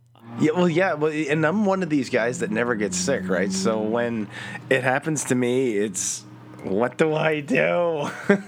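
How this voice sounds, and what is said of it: Congested, stuffed-up voice. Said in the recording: “you sound a little stuffed up there ... Yeah, a little bit.”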